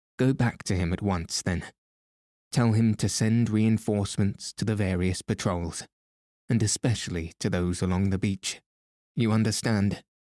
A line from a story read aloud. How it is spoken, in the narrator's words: Chauvelin spoke curtly and to the point